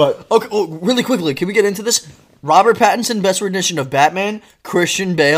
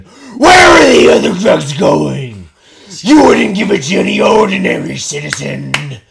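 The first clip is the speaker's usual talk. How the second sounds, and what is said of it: Gravelly Batman-style impression voice. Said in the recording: “I'll go into my Christian Bale impression.”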